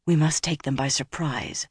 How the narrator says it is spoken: Nynaeve said softly

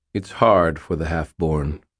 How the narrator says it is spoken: Uriel observed in a quiet, neutral tone

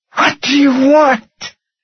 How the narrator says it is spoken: gasped

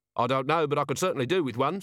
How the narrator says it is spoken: said Vimes

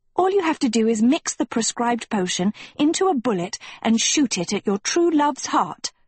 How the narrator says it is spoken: Sophie read excitedly

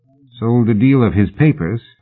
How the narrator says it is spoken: Fraser said dryly

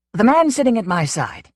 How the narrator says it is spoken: began in a clean, clipped voice

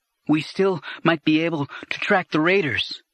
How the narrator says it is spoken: Anakin said, panting

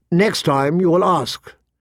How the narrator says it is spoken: she said, her voice sharp

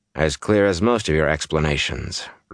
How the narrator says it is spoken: Rand said dryly

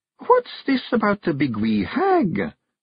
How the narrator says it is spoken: she said, her voice as small and meek as a mouse trained at the Rodent College of Assassins

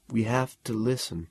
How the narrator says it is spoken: Bibleman said quietly

